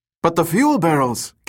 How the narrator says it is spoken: Kim cried

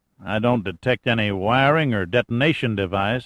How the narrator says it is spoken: he said in a Georgia drawl

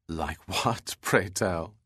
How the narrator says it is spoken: she asked, laughing

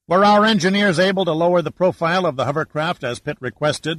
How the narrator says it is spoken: asked Giordino

